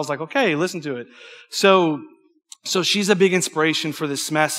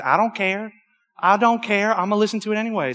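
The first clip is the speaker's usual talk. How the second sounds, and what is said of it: Twangy imitated voice. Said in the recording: “She went in her twang”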